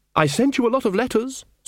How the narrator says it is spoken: said Ridcully

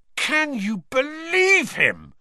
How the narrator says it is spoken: roared Ron, as one of the remaining pixies bit him painfully on the ear

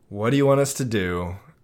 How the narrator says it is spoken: I sighed

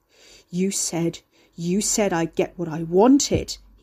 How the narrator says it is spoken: he growled, panting

